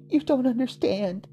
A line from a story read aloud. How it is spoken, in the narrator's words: she whimpered